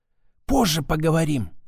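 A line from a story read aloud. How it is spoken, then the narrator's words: Whisper. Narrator (Russian): шепнула она мне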